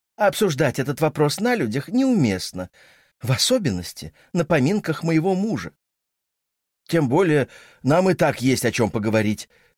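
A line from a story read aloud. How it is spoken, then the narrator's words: Feigned enthusiastic exclamation. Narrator (Russian): с притворным воодушевлением воскликнул Дрю, муж Сесси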